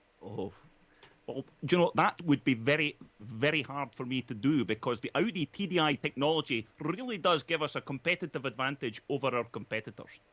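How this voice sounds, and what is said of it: Alan McNish impression. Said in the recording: “do your Alan McNish impression ... They just sound like the same person to me.”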